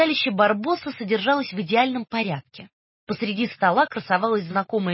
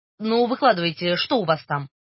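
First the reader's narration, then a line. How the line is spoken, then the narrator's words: Irritated grumble. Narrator (Russian): раздраженно буркнул Барбос, недовольный Ренатиной любознательностью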